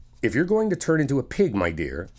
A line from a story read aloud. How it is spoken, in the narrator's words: said Alice